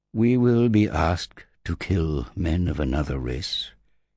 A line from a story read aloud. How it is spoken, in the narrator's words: said, his voice gentle, sad even